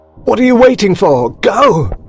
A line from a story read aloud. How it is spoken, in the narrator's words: screamed Sanders from the window